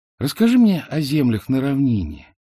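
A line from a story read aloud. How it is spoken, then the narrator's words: Lazy request. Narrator (Russian): лениво попросила она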